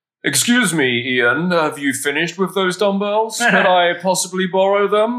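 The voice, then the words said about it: Very British accent imitation. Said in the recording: “Very British”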